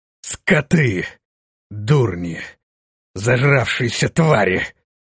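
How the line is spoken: Hateful, furious growl. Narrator (Russian): прорычал, выплеснув всю свою вспыхнувшую ненависть и злобу

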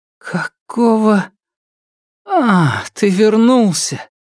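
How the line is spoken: Strained, nauseated. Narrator (Russian): выдавила она, прежде чем начались рвотные позывы

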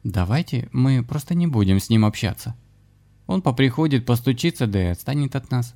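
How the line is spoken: Timid, shrinking suggestion. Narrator (Russian): робко предложила Нина, будто бы сжавшись под недоуменным взглядом шамана

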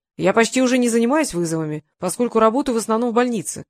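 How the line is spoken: Shouted in reply. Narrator (Russian): прокричал он в ответ

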